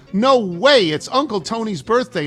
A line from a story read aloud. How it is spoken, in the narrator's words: instinctively shout out loud